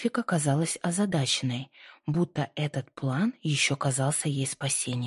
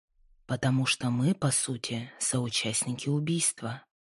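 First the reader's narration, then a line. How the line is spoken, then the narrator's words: Quiet speech. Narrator (Russian): Джордж говорил тихо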